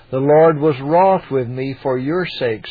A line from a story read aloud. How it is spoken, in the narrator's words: said Moses